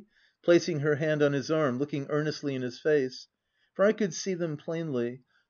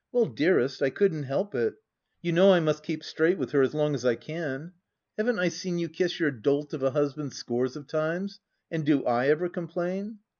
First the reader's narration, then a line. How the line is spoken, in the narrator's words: he answered with a careless laugh